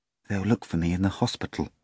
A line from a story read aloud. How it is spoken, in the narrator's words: he added timidly to Volant